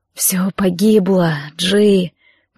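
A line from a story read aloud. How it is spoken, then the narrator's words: Whisper. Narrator (Russian): прошептал Торвальд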